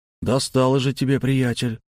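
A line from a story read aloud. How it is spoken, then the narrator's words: Grumbling mutter. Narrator (Russian): буркнул путейщик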